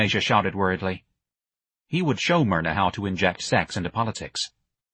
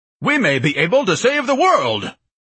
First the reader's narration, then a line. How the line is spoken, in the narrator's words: Ignatius bellowed in an orator's voice